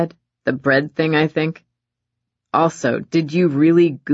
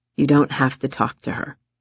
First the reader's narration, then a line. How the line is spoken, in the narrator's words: he said softly